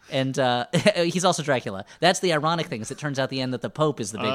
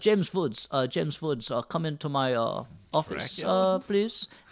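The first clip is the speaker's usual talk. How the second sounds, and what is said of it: Put-on general Eastern European accent. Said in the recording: “he's got a Polish accent, which I can't really do, but I'll just do a general Eastern European”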